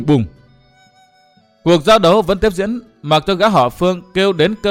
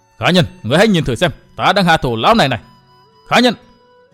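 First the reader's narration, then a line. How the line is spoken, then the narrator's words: Furious shouting. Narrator (Vietnamese): Tức tối và căm giận, gã lại quát lên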